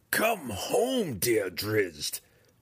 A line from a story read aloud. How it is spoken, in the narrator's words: she purred, her words holding the bindings of a minor magical spell